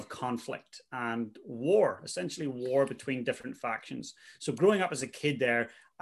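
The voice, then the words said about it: Northern Irish accent. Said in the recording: “the accent is very non-Kiwi. So I'm from Northern Ireland originally.”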